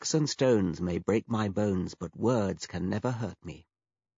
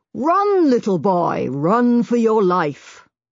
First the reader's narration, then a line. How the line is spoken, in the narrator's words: Hitchcock shouted